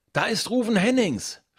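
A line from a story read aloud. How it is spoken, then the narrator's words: Excited shout. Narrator (German): schreit Finn aufgeregt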